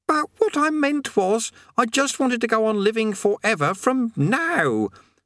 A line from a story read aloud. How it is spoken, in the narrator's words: said Eric frantically